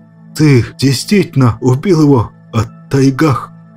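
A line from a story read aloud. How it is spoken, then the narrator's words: Strained, forced out. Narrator (Russian): С трудом взяв себя в руки, выдавил снаб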